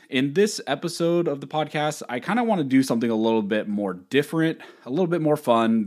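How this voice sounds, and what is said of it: Slightly strained, worn voice. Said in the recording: “my voice again is still a little bit messed up because I was traveling ... just yelling ... my voice is a little off”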